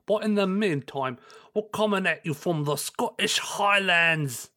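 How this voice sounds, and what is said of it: Rough put-on Scottish accent. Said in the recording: “My Scottish accent is ... That was rough ... Your accent wanders”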